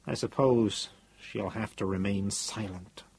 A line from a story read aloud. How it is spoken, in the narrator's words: he added, in an annoyed mutter